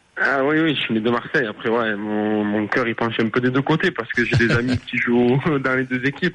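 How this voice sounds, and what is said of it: Marseille French accent. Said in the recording (French): “Je reconnais à ton accent, t'es pas né en Slovénie, t'es plutôt né du côté de Marseille.”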